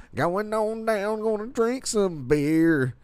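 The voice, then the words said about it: Exaggerated redneck country singing accent. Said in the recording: “I just sing in my accent. It sound like an ignorant redneck.”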